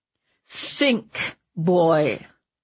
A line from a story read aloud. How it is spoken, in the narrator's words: Ratcliffe snarled in his ear